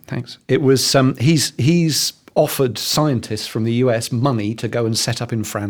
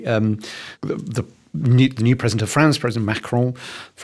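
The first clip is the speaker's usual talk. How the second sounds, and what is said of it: Put-on French accent. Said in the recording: “French accent there”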